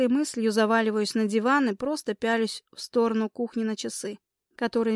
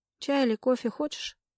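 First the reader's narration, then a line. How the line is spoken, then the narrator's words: Muffled question. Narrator (Russian): глухо спрашиваю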